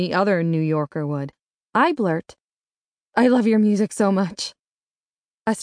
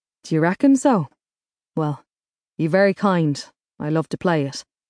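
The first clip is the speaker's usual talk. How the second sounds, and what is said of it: Heavy Irish accent. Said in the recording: “His accent is heavily Irish”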